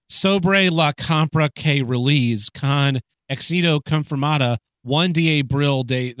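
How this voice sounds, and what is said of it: Exaggerated anglicized reading of Spanish. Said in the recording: “I love reading foreign languages in my super white voice.”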